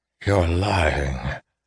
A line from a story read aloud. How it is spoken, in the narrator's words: he rasped